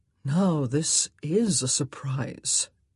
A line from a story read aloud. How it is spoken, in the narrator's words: Simon murmured